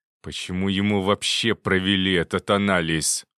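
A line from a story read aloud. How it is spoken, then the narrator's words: Growled. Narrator (Russian): прорычал Жуков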